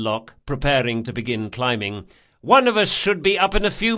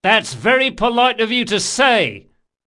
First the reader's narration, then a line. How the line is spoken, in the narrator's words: yelled Locke